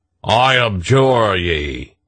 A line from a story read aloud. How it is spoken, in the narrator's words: said to them in a great voice